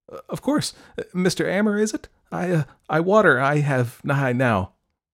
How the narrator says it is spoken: she stammered

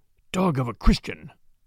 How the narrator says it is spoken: he whispered

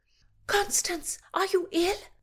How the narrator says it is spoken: cried Brigitta

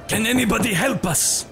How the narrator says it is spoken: He shouted

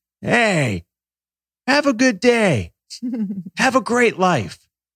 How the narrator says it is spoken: this old man, an hour into this walk, yells

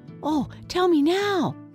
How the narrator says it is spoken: cried the little pumpkin

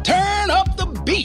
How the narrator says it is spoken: I called out

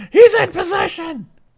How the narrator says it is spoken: Heyman yelling to Lesnar

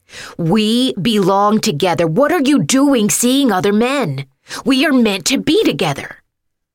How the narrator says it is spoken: Then he shouted with bloodshot eyes

